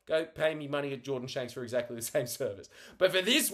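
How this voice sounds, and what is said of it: Usual voice. Nothing is said of it.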